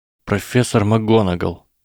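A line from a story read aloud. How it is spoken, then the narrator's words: Trembling voice. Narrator (Russian): начал Гарри дрожащим голосом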